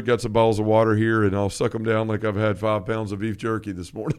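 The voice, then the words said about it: Slightly scratchy, hoarse voice. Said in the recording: “that's why my voice is a little scratchy this morning ... I was screaming”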